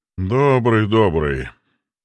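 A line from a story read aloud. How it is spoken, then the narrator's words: Dry. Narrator (Russian): сухо ответил Белиал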